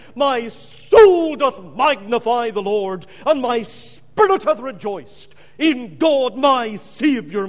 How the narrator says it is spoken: in the middle of the flame, she cried

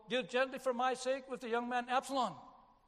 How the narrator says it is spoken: The king shouted out

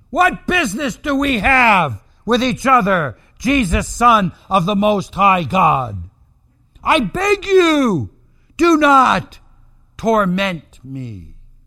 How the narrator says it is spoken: he cried out and said in a loud voice

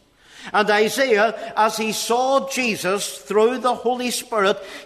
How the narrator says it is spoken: he exclaimed in excitement and joy and happiness

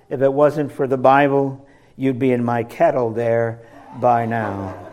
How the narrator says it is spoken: replied the chieftain calmly

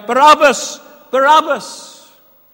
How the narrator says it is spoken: the people cried out

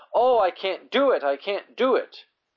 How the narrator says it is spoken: she cried with disappointment

